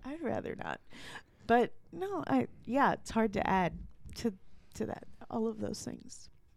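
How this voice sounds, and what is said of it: Choked-up, emotional voice. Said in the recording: “I'm a little choked up”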